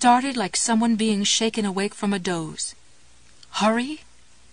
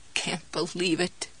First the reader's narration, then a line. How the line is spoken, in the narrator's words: croaked